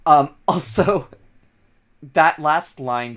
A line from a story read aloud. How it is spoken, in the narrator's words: Keith chuckled